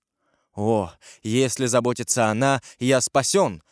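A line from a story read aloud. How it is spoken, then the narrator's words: Exclaiming. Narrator (Russian): воскликнул Ламоль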